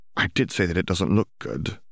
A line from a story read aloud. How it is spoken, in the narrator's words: Hermione muttered